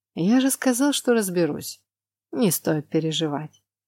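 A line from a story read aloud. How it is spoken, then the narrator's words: Lazy. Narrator (Russian): лениво повторил муж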